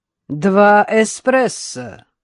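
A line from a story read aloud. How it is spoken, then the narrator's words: Loud. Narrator (Russian): Она громко произнесла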